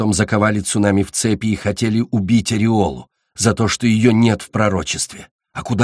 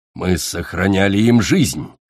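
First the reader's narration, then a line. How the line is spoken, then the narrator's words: Indignant growl. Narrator (Russian): возмущенно рыкнул Ласт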